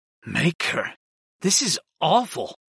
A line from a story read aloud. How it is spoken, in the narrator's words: I muttered